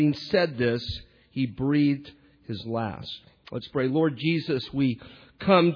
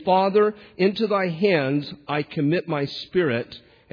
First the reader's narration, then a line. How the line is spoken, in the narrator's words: Jesus cried out with a loud voice, saying